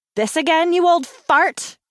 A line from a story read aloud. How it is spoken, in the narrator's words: she raised her voice